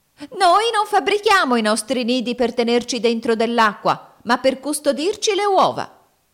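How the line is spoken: Shrieked by female finch. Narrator (Italian): una signora Fringuello strillò

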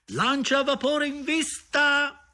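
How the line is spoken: Shouted alert. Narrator (Italian): gridava

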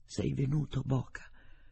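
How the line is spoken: Faint, barely audible voice. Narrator (Italian): Con voce debole, appena percettibile, disse

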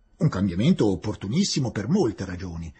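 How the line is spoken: Plain. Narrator (Italian): rispose il maggiore

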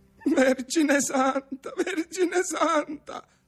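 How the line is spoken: Stammering. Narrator (Italian): balbettava

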